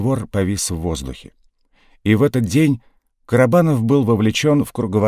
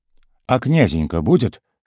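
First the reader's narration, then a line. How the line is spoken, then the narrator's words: Plain question. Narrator (Russian): спросил Карабанов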